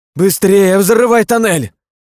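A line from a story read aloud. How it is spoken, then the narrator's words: Shouting. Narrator (Russian): закричала Кристина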